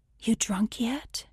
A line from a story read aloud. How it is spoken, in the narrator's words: whispered